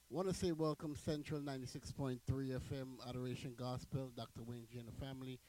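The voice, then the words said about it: Hoarse, fading voice from a cold. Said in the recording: “my voice is actually going ... You would hardly hear my voice because of the weather changing. So I think that I caught a fresh cold.”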